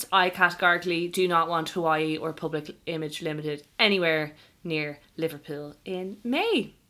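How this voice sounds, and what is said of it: Liverpool accent on one word. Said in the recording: “I love the way you still do the Liverpool accent every time you say Liverpool. It's Liverpool, so nice. Liverpool. It comes through.”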